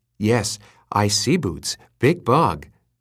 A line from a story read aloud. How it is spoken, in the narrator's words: said Gregor in a hushed voice